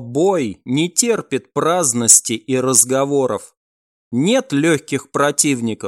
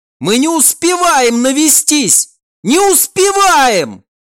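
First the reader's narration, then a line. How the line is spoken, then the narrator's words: Yelling. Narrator (Russian): Уже заорал и сам Альф-наводчик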